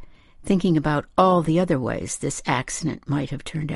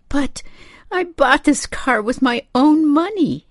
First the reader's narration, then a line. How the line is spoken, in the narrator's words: she cried